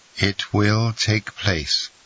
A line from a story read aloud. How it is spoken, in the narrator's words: said Monte Cristo, in a most solemn tone